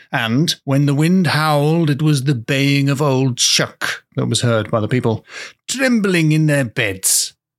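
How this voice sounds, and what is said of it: Old-fashioned storyteller voice. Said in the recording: “I don't know how to do a Norfolk accent. So I'm just doing an old times voice.”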